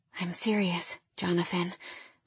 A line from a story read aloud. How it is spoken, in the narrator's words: I murmured unconvincingly